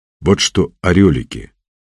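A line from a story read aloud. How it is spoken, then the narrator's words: Stern. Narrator (Russian): строго сказал он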